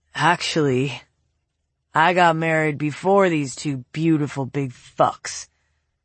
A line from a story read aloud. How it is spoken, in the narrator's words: the voice slurred